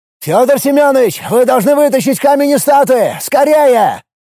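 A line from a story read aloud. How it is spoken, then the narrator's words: Shouted. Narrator (Russian): крикнул Филипп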